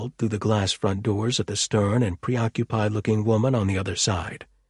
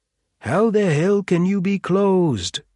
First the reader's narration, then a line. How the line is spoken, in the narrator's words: John shouted